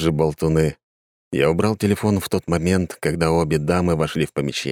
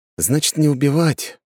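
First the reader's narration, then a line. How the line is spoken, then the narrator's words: Sighing. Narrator (Russian): вздохнул я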